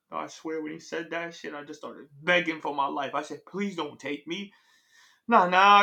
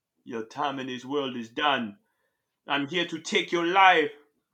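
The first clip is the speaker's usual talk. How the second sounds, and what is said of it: Put-on Jamaican accent. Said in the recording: “Jamaican... Why the fuck does the Grim Reaper have a Jamaican accent?”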